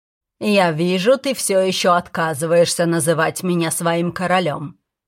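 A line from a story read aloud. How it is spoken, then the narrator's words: Rough. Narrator (Russian): грубо сказал он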